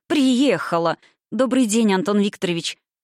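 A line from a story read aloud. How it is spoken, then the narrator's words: Laughing. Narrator (Russian): смеясь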